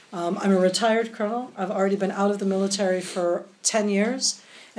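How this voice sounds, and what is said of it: American accent. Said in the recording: “I sound very American ... my American accent”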